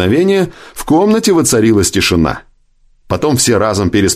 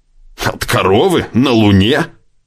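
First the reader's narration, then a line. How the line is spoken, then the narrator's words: Snorting. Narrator (Russian): фыркнул Сэм Брустер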